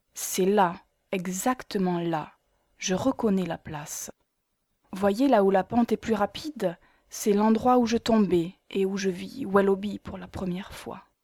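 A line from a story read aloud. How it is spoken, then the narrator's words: Fairly calm. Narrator (French): elle dit d'un ton assez calme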